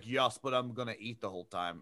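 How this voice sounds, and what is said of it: Weird Austrian accent imitating someone. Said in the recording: “somehow you turned Michael Caine into Arnold Schwarzenegger ... gave him like a weird Austrian accent ... supposed to be Michael Caine”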